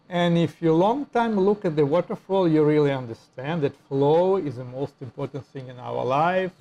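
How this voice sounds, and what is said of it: Russian-accented English. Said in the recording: “my English American style with Russian accent”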